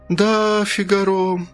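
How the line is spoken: Drawl. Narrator (Russian): протянула тетушка Марта

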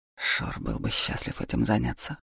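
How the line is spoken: Quiet words into ear. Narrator (Russian): тихонько сказал Даур Лике на ухо

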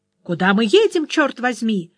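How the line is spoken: Angry shout. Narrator (Russian): закричал он на таксиста

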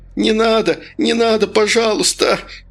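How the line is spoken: Hoarse wheezing. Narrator (Russian): хрипел он

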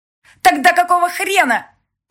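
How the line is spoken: Sharply raised voice. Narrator (Russian): Резко повысила голос Соня

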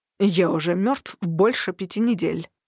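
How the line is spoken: Sharp answer. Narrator (Russian): резко ответил он

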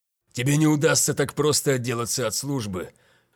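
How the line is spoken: Hoarse smirk. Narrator (Russian): хрипло усмехнулся Ван Микельсон

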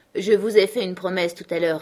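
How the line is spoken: Cold reply. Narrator (French): répondit froidement Matt

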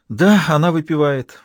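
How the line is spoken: Sighing. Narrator (Russian): фрау вздохнула

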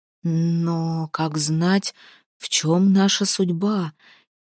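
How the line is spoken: Quiet reply. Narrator (Russian): тихо ответил Хагер

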